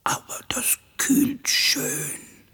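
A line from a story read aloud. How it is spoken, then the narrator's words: Hoarse voice. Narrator (German): gab Giro mit heiserer Stimme von sich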